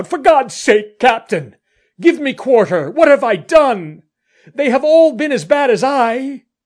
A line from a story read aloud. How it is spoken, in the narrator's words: Will Atkins cried out